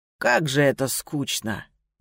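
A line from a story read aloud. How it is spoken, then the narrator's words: Casual drawl, despite being bound. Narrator (Russian): протянул Лэй непринужденным голосом, словно это не он был связан и стоял перед нами на коленях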